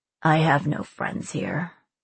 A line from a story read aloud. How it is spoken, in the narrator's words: Slate muttered